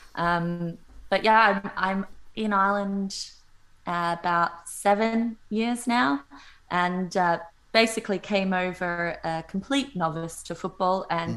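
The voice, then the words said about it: Australian accent. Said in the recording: “obviously have the Australian accent”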